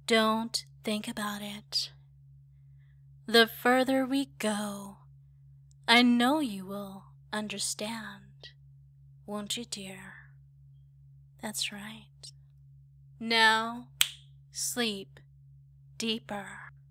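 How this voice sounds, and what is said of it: Soft, relaxing hypnotic voice. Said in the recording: “my voice is relaxing”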